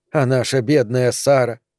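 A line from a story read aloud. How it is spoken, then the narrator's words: Muttering. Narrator (Russian): пробормотала Регина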